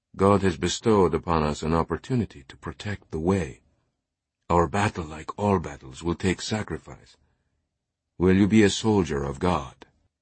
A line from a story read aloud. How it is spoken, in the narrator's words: he whispered